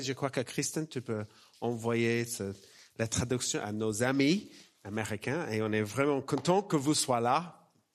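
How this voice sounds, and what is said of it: Slight Australian accent in French. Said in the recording (French): “un petit accent chez moi, c'est un accent australien”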